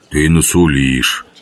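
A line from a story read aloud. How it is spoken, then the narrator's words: Grumbled. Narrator (Russian): проворчал жихарь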